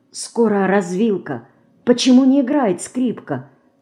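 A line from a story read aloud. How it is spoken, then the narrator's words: Whispering again. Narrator (Russian): снова зашептала Динка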